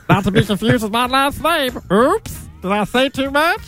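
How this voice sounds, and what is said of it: Masked cartoon voice like Meatwad. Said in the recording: “This voice here is not my actual voice. I'm masking my voice... Sounds like Meatwad from the Aqua Teen Hunger Force, actually.”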